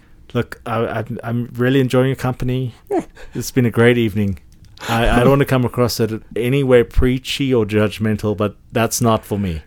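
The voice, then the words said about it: Speaks in a put-on accent. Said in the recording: “The accent and everything. ... Yeah, the accent,”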